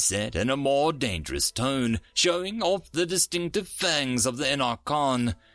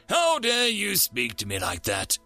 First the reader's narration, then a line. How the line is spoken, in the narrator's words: Yenan growled